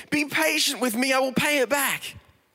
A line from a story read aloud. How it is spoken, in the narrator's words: His fellow servant begged him